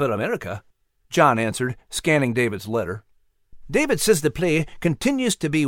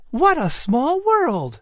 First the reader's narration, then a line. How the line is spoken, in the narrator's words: Sarah exclaimed